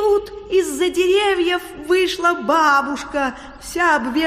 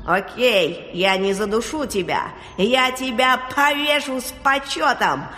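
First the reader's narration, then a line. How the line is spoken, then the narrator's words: Furious growl. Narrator (Russian): зарычала озверевшая шапочка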